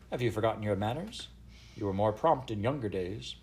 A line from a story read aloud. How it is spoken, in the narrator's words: she said, smiling grimly